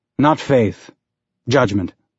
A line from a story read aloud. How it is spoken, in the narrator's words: he said